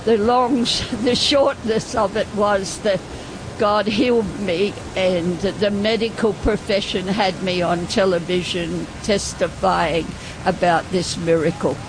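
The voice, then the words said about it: Australian accent. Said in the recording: “I can tell by your accent that you're... I'm an Australian, yes.”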